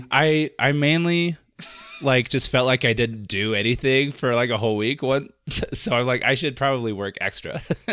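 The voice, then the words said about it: Sick, congested voice with sniffles. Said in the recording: “I ended up getting myself sick ... my voice is a little weird ... I'll try to edit out all the sniffles”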